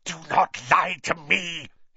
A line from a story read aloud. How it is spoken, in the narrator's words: hissed the second voice